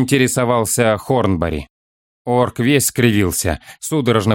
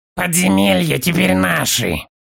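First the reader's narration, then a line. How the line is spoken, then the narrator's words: Orc's hoarse wheeze. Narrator (Russian): хрипел орк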